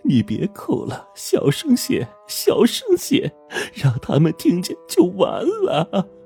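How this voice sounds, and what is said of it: Hushed, throat-pressed woman's voice. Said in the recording (Chinese): “另一个中年女人压着喉咙”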